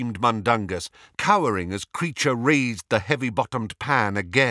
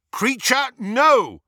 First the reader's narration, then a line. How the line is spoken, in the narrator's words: shouted Harry